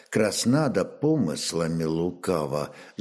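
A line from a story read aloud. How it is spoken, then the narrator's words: Quiet concluding remark. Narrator (Russian): заключил он негромко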